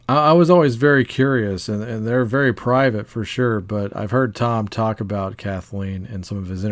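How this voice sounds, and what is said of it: Usual voice. Nothing is said of it.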